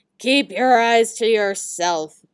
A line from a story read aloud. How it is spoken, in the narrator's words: the troll growled menacingly at the tin soldier